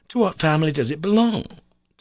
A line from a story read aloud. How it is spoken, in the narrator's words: cried I